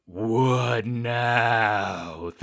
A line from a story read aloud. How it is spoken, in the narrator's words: Thistle moans